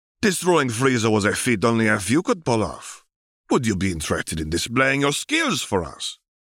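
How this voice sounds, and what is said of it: Character voice with strange accent. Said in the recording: “in his characteristic strange accent... how annoying the enunciations in Salza's voice were”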